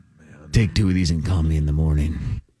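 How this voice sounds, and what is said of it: Creepy voice. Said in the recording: “That's a creepy voice. ... That's a very creepy voice.”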